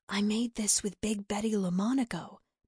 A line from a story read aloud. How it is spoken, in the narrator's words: Bella proudly whispered